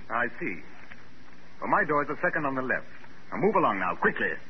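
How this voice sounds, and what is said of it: Oxford accent, flaccid voice. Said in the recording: “the accent was Oxford ... The gentleman with the flaccid voice”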